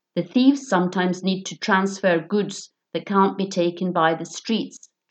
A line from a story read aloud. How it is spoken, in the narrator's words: Joom said